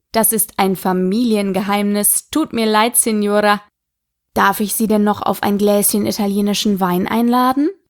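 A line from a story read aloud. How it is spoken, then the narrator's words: Laughing. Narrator (German): lachte der Wirt und sagte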